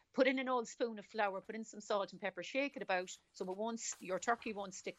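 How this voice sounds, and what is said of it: Irish Cork accent. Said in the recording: “I'm picking up a Cork accent, am I? ... that's a Cork accent.”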